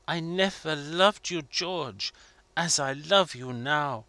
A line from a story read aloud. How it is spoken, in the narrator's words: Marguerite's voice was whispering to him